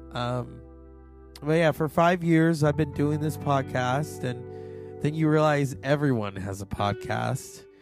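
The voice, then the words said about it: Slightly hoarse voice. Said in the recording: “my voice is not 100% ... it's still kind of parched or not parched, just hoarse”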